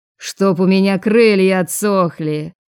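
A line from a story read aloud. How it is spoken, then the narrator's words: Man's bark, loud laughter. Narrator (Russian): рявкнул мужчина с огненно-рыжей шевелюрой и громко захохотал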